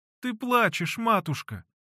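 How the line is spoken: Tearful babbling. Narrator (Russian): сквозь слезы лепетала Флёнушка

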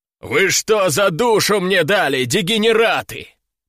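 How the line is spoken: Roaring. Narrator (Russian): проревел тот

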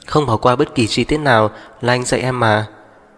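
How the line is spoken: Smiling. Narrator (Vietnamese): mỉm cười nói

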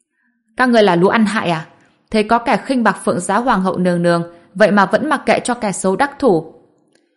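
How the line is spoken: Angry roar. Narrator (Vietnamese): nam tử anh tuấn vĩ ngạn này hình như đang giận dữ, gầm lên

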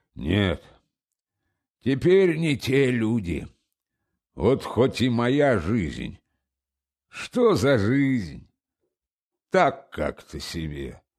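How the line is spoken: Continuing with a sigh. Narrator (Russian): вздохнувши, продолжал

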